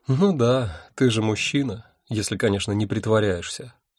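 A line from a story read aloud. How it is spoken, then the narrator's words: Sighing. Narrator (Russian): вздохнула она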